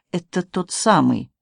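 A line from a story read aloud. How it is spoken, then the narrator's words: Whispered. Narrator (Russian): Мти шепнул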